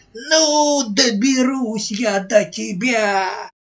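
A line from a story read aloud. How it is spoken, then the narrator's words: Angry screaming. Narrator (Russian): От злости завопила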